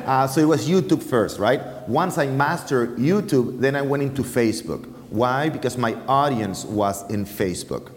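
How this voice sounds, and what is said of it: Strong foreign accent. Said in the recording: “my huge accent”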